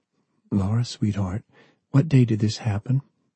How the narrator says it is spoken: Grace asked softly

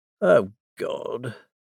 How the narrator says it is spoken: Daisel muttered

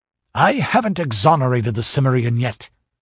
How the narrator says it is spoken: snapped the Inquisitor

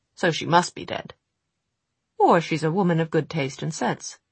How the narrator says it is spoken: he observed more brightly than he felt

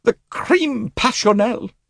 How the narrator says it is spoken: She exclaimed

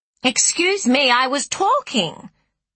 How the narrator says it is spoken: Rachel would yell after him

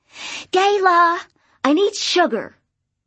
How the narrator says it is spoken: Emma yelled at the door

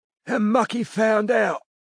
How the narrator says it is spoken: wheezed Betty Fuller

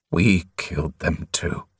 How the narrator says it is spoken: he croaked

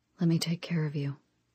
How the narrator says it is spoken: he whispered

